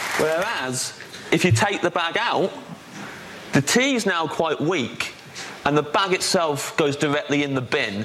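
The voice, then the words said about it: Beautiful English accent. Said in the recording (Dutch): “dat accent is natuurlijk prachtig”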